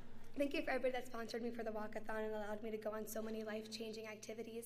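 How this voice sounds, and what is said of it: Hoarse, nearly lost voice. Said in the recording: “sorry about my voice. I scream too loud at camp sometimes, and it's gone.”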